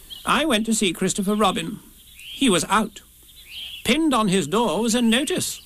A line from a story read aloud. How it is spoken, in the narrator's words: said Rabbit solemnly